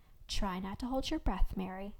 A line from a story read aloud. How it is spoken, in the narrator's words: Tabitha said in her low, calm voice